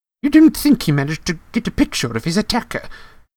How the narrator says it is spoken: said Professor McGonagall eagerly

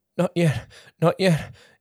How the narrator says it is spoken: Jake pleaded

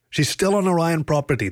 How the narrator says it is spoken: the lion yelled back

